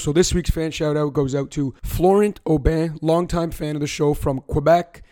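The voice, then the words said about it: Raspy, strained voice. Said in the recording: “Mind my raspy voice. My voice is not cooperating right now”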